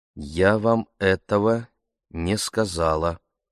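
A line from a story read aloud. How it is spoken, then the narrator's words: Slow. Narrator (Russian): медленно произнесла она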